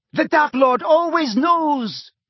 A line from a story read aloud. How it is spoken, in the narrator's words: A harsh female voice said triumphantly